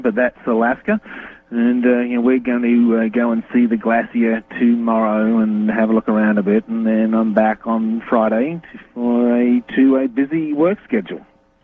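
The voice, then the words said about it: Australian accent. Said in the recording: “as you might be able to discern by his accent, if you've never heard him, is Australian”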